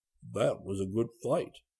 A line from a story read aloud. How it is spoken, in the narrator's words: murmur in the bear language